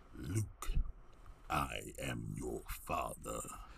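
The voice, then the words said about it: Darth Vader impression. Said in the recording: “that Darth Vader impression that you do oh so fucking great”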